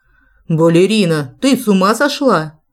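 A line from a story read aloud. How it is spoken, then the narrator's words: Loud bark over music. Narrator (Russian): рявкнул, заглушив джаз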